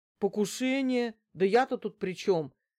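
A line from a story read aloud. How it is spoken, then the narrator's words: Frightened exclamation. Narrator (Russian): воскликнул испуганный Алексей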